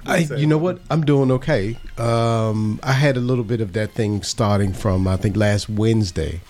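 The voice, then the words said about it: Congested, stuffed-up voice. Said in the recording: “still kind of stopped up, so my voice sounds a bit crazy”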